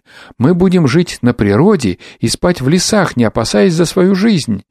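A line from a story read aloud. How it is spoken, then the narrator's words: Group exclaiming. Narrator (Russian): и все мы воскликнули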